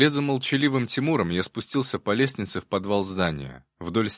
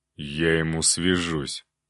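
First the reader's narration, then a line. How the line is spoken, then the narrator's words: Growled. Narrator (Russian): рыкнул Илья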